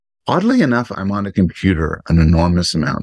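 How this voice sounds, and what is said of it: Usual voice. Nothing is said of it.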